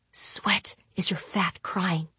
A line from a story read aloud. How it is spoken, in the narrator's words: I whispered to the wood